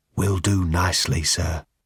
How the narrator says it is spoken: said the barman in a barely audible whisper from between dry lips

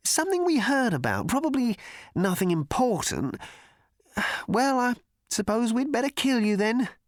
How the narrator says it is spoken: continued the cricketer uneasily

